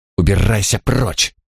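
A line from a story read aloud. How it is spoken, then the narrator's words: Hiss. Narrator (Russian): прошипела она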